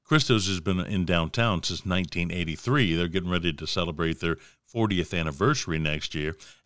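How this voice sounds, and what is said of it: Southern American drawl. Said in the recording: “My southern drawl”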